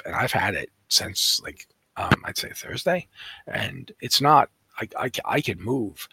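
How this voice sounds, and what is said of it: Deep raspy hoarse tired voice. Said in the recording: “I sound like the Crypt Keeper and, you know, Sam Elliott had a baby ... it goes back down here because I'm just so tired ... I don't have the energy to talk like that ... laryngitis”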